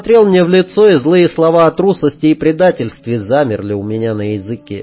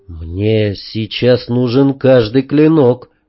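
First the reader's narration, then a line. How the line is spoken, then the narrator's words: Quiet. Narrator (Russian): тихо сказал я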